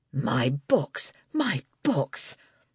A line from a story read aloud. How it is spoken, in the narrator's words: the man muttered, breathless